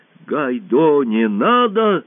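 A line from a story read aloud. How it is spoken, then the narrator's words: Shouting. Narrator (Russian): закричал Ия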